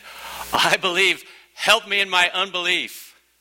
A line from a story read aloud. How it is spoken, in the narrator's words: the father of the child cried out and said